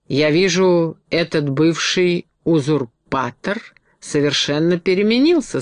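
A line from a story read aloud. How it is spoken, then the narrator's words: Plain. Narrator (Russian): сказал он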